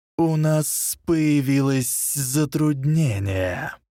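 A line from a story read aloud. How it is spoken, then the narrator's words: Hissing. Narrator (Russian): прошипел Волан-де-Морт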